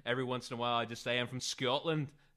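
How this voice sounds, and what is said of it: Put-on Scottish accent. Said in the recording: “So that's my Scottish accent.”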